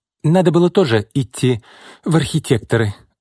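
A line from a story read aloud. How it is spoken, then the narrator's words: Envious sigh. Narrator (Russian): с завистью вздохнула Марина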